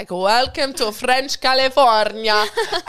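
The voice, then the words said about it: Attempted French accent sounding Italian. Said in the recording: “the worst accent ever ... That was so Italian. That was so Italian. ... I can't do French”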